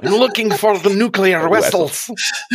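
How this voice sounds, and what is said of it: Russian-accented Star Trek character voice. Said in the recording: “Chekhov from Star Trek ... That's the right accent”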